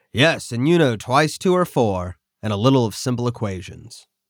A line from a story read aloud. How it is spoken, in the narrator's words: Erickson responded dryly